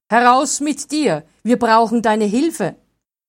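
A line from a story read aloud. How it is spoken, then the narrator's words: Calling out. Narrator (German): rief er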